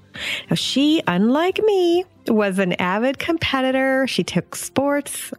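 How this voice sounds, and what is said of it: Irish accent. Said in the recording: “I love your little accent. ... I've always liked that accent. ... I'm going to have to make it to Ireland someday.”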